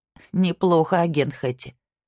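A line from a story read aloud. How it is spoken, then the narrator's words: Laughing. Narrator (Russian): смеясь сказала Ясмин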